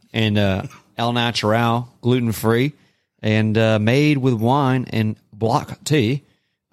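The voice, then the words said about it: Rough put-on British accent. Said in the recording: “a British accent ... That was rough ... It was like some obscure island off the UK that no one's ever heard.”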